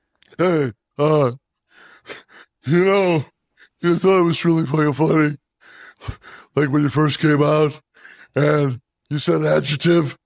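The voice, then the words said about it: Cartoon character voice. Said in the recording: “a good Eric Clapton impression. ... That was actually Patrick from SpongeBob.”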